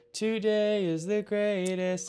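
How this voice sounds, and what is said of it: Sung imitation of another person's voice. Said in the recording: “begins singing in a pretty good Billy Corgan impression”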